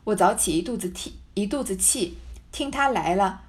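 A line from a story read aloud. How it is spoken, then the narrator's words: Laughing. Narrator (Chinese): 探春笑道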